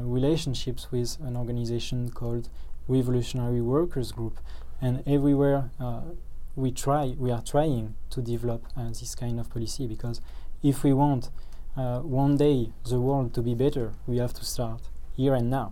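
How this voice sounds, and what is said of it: French-accented English. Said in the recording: “from France... your accent”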